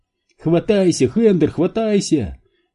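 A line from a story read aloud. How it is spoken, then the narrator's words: Yelling, spluttering water. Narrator (Russian): вопил Энди, сплевывая соленую воду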